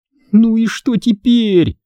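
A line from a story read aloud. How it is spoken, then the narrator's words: Moaning. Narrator (Russian): простонала Эмили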